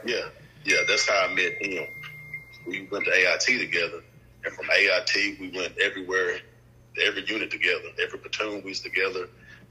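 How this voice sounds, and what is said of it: Thick Tennessee accent. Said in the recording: “that accent real, real thick ... I'm from Jackson, Tennessee”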